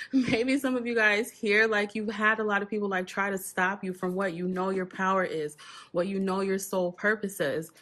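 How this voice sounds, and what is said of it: Choked-up, emotional voice. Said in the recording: “Starting to get a little choked up.”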